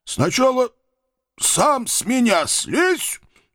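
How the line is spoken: Strained wheeze, disbelieving. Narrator (Russian): С трудом прохрипел я, не веря своему спасению

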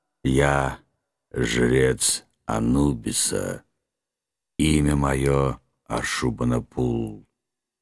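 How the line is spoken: Creaky, strained monster voice. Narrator (Russian): проскрипел монстр, с трудом двигая подвязанной челюстью

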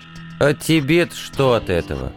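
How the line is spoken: Bored, sleepy question. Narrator (Russian): скучающим тоном спросил командор, на него наша перепалка уже навевала сон

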